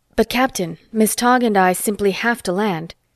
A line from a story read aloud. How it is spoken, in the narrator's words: Ronnie Bronston said desperately